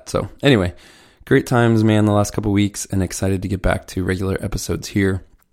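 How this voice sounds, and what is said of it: Worn voice, not back to normal. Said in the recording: “As you might still hear in my voice, I'm not quite back to normal in terms of how much we've been talking, and then just kind of having a bug”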